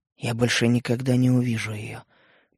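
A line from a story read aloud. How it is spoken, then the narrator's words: Horrified whisper. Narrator (Russian): прошептал я, и сам ужаснулся этим словам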